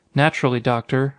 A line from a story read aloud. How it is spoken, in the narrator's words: Hartnett said